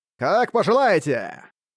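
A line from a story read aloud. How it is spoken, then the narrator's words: Smirking, theatrical tone. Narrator (Russian): Ухмыльнувшись, он наигранным тоном сказал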